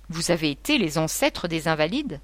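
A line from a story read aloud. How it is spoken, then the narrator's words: Exclaimed. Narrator (French): s'exclama M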